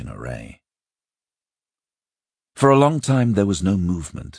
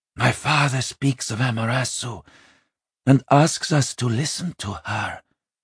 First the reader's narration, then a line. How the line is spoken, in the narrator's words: Jariki whispered